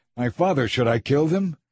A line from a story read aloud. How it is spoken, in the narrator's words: the king of Israel … he shouted to Elisha